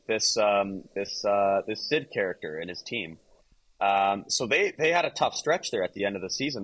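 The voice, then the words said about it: Raspy voice. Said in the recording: “My voice is just raspy as hell late night”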